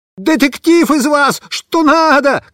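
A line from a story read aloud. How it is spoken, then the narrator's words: Shouting. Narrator (Russian): кричал обезьяне Бобиш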